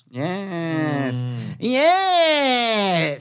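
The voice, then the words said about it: Impression of the other host. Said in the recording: “Is that your impression of me? ... It's good. That was really good.”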